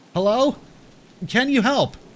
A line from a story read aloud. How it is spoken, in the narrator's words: I shout